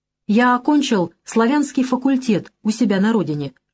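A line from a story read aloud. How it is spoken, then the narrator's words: Plain. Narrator (Russian): ответил Кафлин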